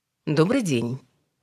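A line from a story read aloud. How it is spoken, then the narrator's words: Cold greeting. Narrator (Russian): холодно поздоровалась Ольга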